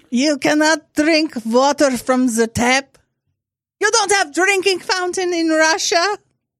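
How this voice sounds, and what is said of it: Put-on Russian accent. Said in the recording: “a person with your kind of accent ... I think that you are from Russia”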